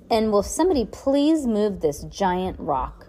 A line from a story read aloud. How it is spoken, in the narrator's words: Heidi grumbled